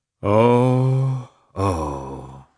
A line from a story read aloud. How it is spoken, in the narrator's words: he sighed deeply